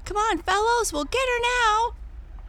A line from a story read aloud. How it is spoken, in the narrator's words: cried the red-haired boy as he ran on faster than before